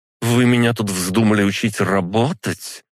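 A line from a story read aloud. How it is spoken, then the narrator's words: Cold, through teeth. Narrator (Russian): процедила она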